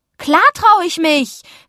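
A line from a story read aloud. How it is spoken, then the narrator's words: Calling. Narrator (German): rief ich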